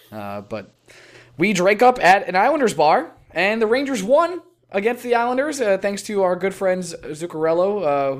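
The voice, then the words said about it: Hoarse, partly lost voice. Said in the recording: “I have lost my voice a little bit, and I'm sure as we continue to podcast today, that it'll go and go”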